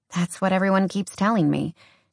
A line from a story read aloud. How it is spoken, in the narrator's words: she muttered on a sigh